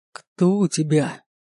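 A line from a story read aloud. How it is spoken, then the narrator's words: Ex-husband's growl. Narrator (Russian): прорычал бывший муж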